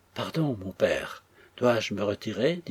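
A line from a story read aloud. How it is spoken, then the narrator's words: Trembling voice. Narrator (French): dit Florence, d'une voix tremblante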